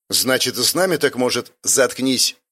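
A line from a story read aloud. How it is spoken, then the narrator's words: Sharp interruption. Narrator (Russian): Резко оборвал его Орик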